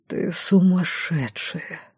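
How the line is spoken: Whisper. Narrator (Russian): прошептал он

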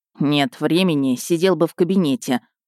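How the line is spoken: Grumbling under breath. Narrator (Russian): проворчал под нос герр Петер

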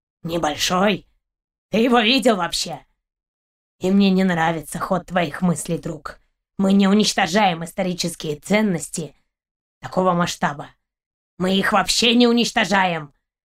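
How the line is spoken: Dog's growl. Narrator (Russian): рыкнул пес

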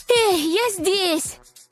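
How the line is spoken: Breathless shout. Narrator (Russian): Запыхавшись, крикнула она

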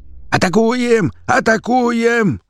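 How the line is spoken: Yelling. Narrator (Russian): заорал хромой

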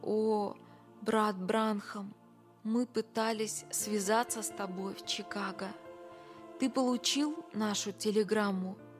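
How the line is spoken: Slow, emotionally strained. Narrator (Russian): Когда Джордж смог продолжать говорить, он медленно сказал

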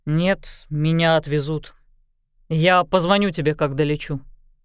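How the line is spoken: Dry. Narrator (Russian): Мэддокс сухо сказал

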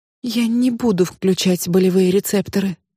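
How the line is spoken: Trembling voice. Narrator (Russian): дрожащим голосом сказала

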